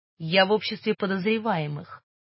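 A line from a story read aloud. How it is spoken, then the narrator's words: Very calm retort. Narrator (Russian): очень спокойно парировал Гош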